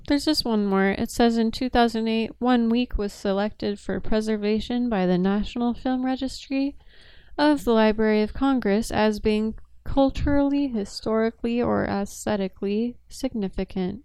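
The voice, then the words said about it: Newscaster-style reading voice. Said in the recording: “Why are we going into this newscaster voice? ... you just did it again”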